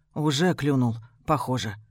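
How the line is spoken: Sad smiling voice. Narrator (Russian): грустно улыбнувшись, говорит Ева

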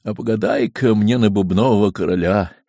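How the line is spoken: Sad sigh. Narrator (Russian): Варвара Ивановна грустно вздохнет, да вдруг и скажет

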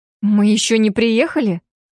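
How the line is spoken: Indignant. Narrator (Russian): Возмущенно

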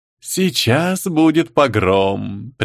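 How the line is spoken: Ominous, prophetic tone. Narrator (Russian): предсказательным тоном поведал жуткий ассистентом

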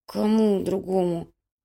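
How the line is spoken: Mumbled. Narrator (Russian): промямлил Грыжа

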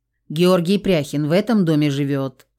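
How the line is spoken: Stern question. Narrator (Russian): строго спросил Громов

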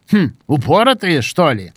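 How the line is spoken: Grunting, then dropping words. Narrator (Russian): предварительно хмыкнув, проронил Гена

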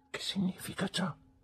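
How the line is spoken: Quiet question. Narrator (Italian): chiese Marta sottovoce

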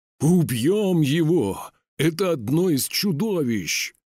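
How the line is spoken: Roaring crowd. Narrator (Russian): взревели люди

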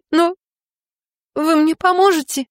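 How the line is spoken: Sobbing. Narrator (Russian): всхлипываю

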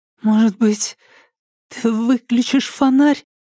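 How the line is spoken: Timid, fearful. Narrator (Russian): Попробовала она робко, опасаясь новой вспышки

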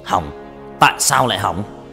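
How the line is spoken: Loud shout. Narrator (Vietnamese): Hắn quát lớn

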